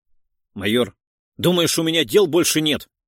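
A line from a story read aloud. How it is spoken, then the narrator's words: Barking. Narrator (Russian): рявкнул Сотников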